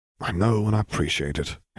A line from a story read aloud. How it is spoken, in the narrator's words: Harry sighed